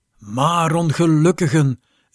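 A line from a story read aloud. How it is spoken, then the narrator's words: Young man calling out. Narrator (Dutch): riep de jonge man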